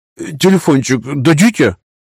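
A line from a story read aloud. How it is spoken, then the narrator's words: Nervous stammering request. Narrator (Russian): краснея и заикаясь от волнения, попросил мальчишка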